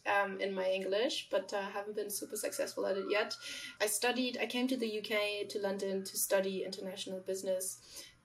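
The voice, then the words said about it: Slight German accent in English. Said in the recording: “You probably caught onto my accent. I'm not from London. I am from Germany. I've been trying to get rid of this German little hit of accent”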